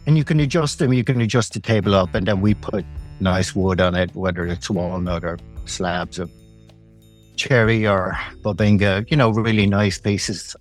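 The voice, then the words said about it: Irish accent. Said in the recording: “judging by your accent, doesn't sound like you're originally from Oakville, Connecticut ... I'm Irish. I'm from Dublin”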